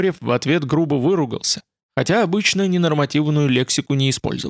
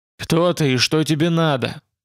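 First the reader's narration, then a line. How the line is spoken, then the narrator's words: Grim question. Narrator (Russian): мрачно спросил Кухарев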